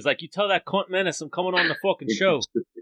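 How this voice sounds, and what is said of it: Bad put-on Russian-Australian accent. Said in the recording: “a like Russian fucking Australian accent ... I have a bad accent. I have a bad impersonation”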